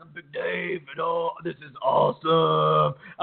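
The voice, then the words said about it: Surfer-dude voice like Crush. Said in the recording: “he also has the voice almost of like Crush from Finding Nemo”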